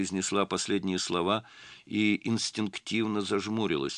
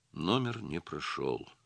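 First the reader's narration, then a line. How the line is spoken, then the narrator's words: Glum statement. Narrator (Russian): уныло констатировала Настя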